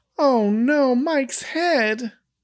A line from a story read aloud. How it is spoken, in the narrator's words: Carol exclaims